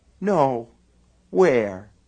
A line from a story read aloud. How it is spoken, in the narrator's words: he asked her tenderly